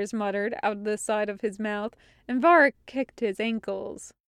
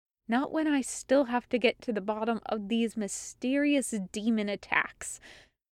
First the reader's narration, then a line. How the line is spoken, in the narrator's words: she muttered under her breath